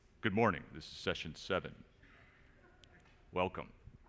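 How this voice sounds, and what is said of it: Formal announcer-style conference voice. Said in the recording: “I should do that conference voice”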